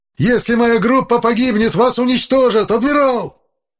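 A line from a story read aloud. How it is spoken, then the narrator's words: Furious spluttering shout. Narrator (Russian): Брызгая слюной, заорал безопасник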